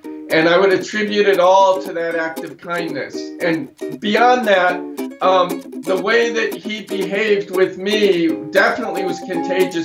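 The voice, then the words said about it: French accent speaking English. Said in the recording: “with a French accent”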